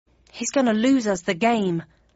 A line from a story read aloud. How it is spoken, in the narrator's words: muttered Jam in my ear